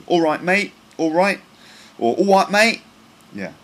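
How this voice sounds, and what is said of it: Put-on London Cockney accent. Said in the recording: “a kind of London Cockney accent ... Now that's a kind of Cockney accent.”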